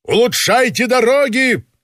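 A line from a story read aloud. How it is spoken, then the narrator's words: Shouted farewell. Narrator (Russian): закричал он на прощание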